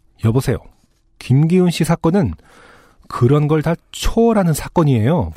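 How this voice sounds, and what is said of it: Irritated, annoyed voice. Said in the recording (Korean): “짜증이 섞인 목소리로”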